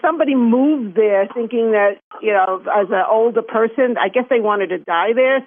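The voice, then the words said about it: New York accent. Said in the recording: “Everybody thinks I have this great accent ... It's a Chinese New York accent, right?”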